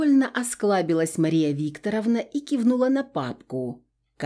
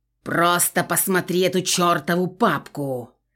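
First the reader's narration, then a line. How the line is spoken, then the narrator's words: Impatient growl. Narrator (Russian): рыкнула Мария Викторовна, теряя терпение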